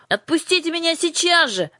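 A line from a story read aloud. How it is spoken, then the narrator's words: Scream. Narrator (Russian): закричала она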